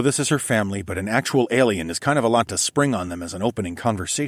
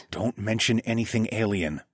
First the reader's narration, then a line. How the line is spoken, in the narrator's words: I whispered